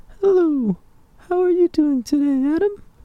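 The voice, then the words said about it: High-pitched, soft, gaspy parched voice. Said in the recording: “he changes his voice to have this, like, really gaspy ... very high-pitched, you know, very soft, almost parched-sounding voice”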